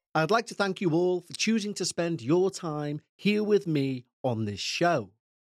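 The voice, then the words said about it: Liverpool English accent. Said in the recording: “As you may be able to tell from my accent, I'm from Liverpool in England.”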